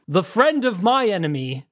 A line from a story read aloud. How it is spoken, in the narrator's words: the uncle roared